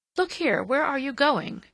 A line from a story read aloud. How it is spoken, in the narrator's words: Mary cried